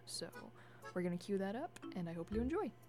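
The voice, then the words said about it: Polished radio announcer delivery. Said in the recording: “You have a great radio voice.”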